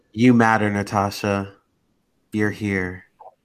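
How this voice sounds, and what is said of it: Soft, calm ASMR-style voice. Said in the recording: “Why do you sound like that? We're not meditating here. ... I'm trying out my ASMR voice.”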